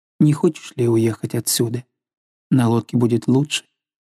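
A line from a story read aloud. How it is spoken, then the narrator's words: Soft coaxing question. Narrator (Russian): он спросил ее вкрадчивым мягким голосом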